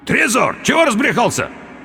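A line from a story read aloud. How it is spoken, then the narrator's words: Failed shout, hoarse croak. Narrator (Russian): Я попытался крикнуть ему, но смог выдавить из себя лишь невнятный хрип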